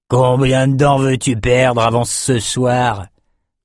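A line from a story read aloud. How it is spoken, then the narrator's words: Drunkard growling. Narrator (French): grogna l'ivrogne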